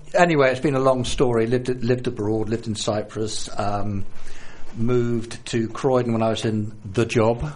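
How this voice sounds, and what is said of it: South London accent. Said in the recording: “the accent, South London”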